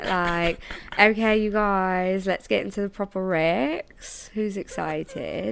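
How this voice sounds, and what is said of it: Put-on Manchester accent. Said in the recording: “Let me do my Manchester... No, yeah, my Manchester accent.”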